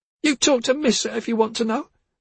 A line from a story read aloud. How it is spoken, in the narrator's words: cried